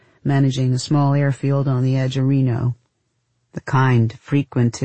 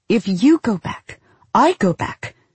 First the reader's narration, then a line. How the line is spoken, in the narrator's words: she said sharply